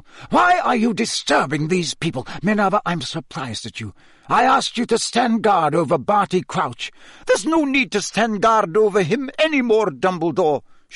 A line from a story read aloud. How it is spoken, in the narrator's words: she shrieked